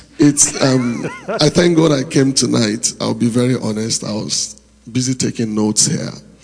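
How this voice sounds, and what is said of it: Strained, hoarse voice. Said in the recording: “I'm sorry I lost my voice.”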